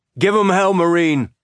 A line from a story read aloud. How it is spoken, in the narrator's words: He yelled